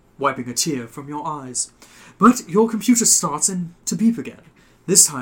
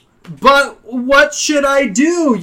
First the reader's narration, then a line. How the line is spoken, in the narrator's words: You yell after him